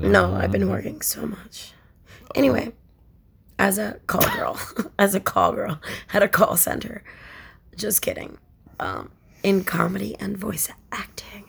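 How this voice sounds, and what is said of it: Raspy voice. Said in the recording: “I'm raspy”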